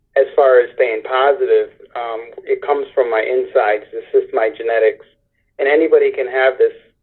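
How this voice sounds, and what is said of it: Strained voice, fading with talking. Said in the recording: “my voice is changing right now ... the more I talk, the more I lose my voice a little bit. That's only from the chemotherapy”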